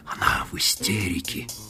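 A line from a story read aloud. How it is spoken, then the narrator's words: Whispered. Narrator (Russian): прошептал он Мадлен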